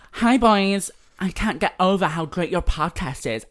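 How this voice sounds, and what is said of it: Put-on American accent. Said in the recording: “I'm gonna do an American accent.”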